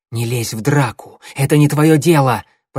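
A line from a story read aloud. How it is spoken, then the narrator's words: Hissed. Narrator (Russian): прошипел он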